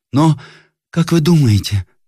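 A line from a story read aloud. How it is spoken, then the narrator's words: Timid young girl's question. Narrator (Russian): спросила робким голосом молодая девушка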